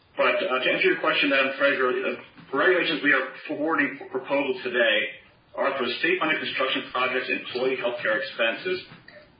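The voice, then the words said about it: Rough, hoarse voice. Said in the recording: “apologize for my voice. My voice is a little rough this morning.”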